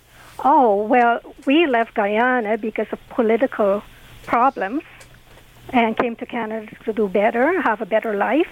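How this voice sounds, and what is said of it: Non-native, foreign-born accent. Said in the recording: “I can tell from your accent that you were born somewhere else.”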